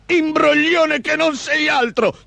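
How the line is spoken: Big man thundering. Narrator (Italian): tuonò l'omone

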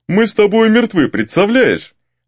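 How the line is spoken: Laughing. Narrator (Russian): рассмеялся Гризли

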